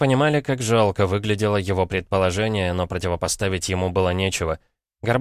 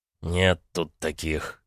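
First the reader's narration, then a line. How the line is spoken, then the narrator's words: Gruff mutter. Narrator (Russian): буркнул Эрг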